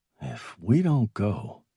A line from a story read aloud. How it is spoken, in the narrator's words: Morris said slowly, trying to keep his voice steady